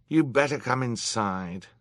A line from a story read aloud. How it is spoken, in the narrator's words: he said with a weary sigh